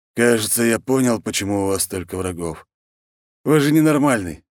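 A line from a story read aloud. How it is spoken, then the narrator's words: Exhaled. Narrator (Russian): выдохнул мужчина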